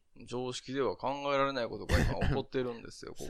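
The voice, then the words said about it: Imitates another person's voice. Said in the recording (Japanese): “モノマネうまいな ... 本当うまくないと思うよ、今の ... なんか言わされてる感が強いんだけど”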